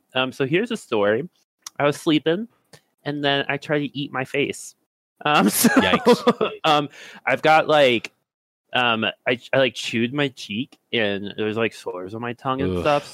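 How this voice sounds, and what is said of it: Slightly impaired, effortful speech. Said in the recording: “you probably already hear it. My voice is a little messed up... the only way I can talk is if I push up against my teeth so my tongue is skinnier”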